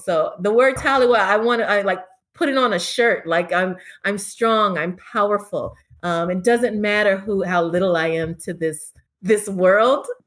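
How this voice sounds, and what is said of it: Slight Jamaican accent. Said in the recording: “your accent, you got a little accent-y on there ... Sounds like she's in the movie Cool Runnings.”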